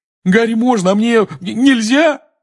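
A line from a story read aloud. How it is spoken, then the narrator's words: Wailing. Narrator (Russian): взвыл Рон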